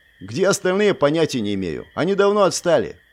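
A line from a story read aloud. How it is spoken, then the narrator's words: Snorting. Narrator (Russian): фыркнул Джеремейн, непринужденно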